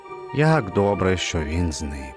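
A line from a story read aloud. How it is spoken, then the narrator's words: Relieved sigh. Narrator (Ukrainian): полегшено зітхнув він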